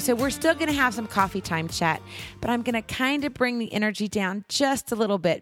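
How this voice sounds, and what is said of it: Strained, fading voice. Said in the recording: “I'm slowly losing my voice ... I've been squawking and squealing”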